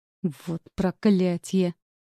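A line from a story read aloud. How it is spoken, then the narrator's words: Through clenched teeth. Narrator (Russian): сцепив зубы, процедил Джеймс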